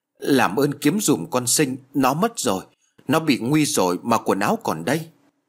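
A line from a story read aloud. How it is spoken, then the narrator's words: Louder wailing. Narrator (Vietnamese): bà lại gào to hơn nữa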